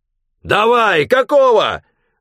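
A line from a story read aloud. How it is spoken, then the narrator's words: Yelling. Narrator (Russian): заорал Шурыгин трактористам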